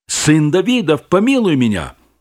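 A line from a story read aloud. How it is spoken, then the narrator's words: Louder shouting. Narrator (Russian): он еще громче кричал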